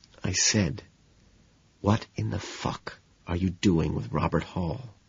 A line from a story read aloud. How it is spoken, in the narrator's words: I whisper